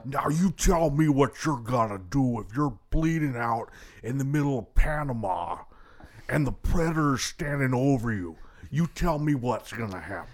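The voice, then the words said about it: Jesse Ventura impression. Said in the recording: “That's actually a pretty spot on impersonation. ... Thank you, Jesse Ventura, for that audio clip.”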